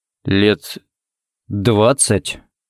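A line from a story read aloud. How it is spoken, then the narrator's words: Uncertain drawl. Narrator (Russian): неуверенно протянул Харри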